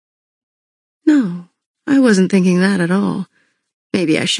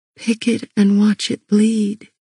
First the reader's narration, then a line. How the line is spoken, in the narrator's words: I murmured